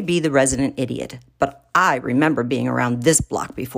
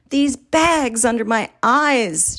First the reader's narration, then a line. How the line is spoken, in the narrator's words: moans